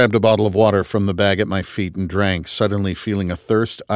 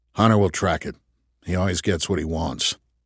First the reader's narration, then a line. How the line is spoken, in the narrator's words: Trip grunted